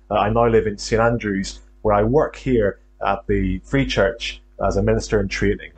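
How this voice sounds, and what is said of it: Faint Northern Irish accent. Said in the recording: “Hopefully you can still pick up on a trace of a Northern Irish accent.”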